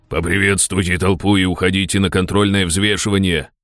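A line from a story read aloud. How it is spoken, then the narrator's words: Growl. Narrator (Russian): прорычал Ярый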